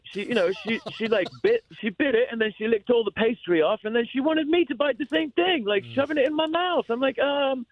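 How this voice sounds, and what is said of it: Rich Australian accent. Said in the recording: “you've got a rich accent yourself ... Australia”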